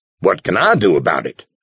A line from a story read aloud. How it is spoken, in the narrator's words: He asked crossly